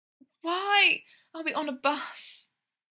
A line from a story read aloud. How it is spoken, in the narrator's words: Brendan panted